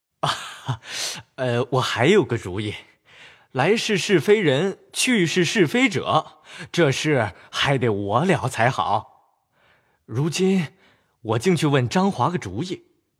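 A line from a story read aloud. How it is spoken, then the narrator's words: Laughing. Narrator (Chinese): 贾蓉便笑道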